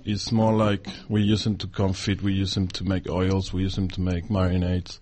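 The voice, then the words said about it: Foreign-accented English. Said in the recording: “a really lovely exotic accent”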